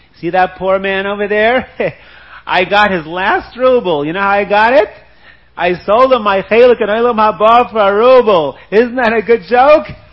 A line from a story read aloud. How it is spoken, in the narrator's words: laughing